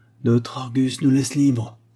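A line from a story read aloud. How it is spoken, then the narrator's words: Contented painter exclaiming. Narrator (French): s'écria le peintre en se frottant les mains de contentement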